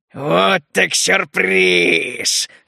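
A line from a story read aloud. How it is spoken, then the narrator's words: Loud growl. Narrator (Russian): громко прорычал он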